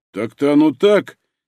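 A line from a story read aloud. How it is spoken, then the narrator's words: Sudden mumble. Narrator (Russian): неожиданно промямлил Бугай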